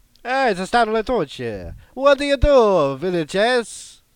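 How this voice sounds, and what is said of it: Horrible fake Italian accent. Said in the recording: “I'm Italiano. I do a horrible accent.”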